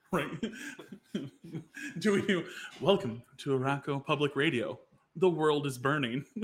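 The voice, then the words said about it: NPR radio host voice. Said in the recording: “Do we attempt like an NPR voice?”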